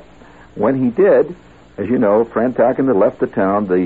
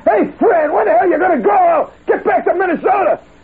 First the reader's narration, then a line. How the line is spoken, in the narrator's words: He's way up near the top hollering